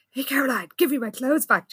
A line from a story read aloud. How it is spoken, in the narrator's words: Jessica hissed